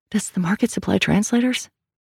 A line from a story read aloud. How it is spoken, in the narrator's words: Sal whispered